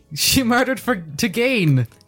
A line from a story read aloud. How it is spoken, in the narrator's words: I chuckle snarkily